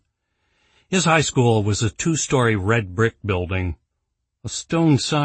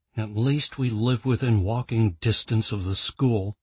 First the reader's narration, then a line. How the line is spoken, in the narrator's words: Jason muttered as he continued his jog